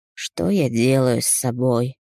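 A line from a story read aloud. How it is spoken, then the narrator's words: Hopeless exhale. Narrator (Russian): Выдохнул, не надеясь на ответ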